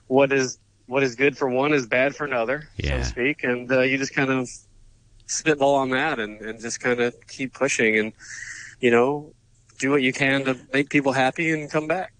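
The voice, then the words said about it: Speaks with a noticeable regional accent. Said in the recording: “it's really cool to hear you've got your accent back”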